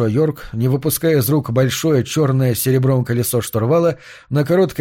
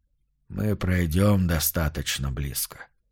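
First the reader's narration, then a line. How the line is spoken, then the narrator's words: Hollow-voiced promise. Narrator (Russian): пообещал он пустым голосом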